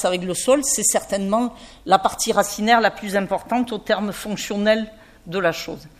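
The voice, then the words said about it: Slight southern French regional accent. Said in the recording (French): “vous avez entendu avec mon petit accent, que je ne sais pas de cacher ... de la garrigue de la région Montpellier”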